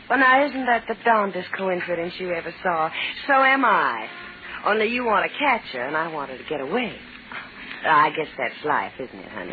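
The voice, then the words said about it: Woman with a Southern American accent. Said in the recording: “a southern accent”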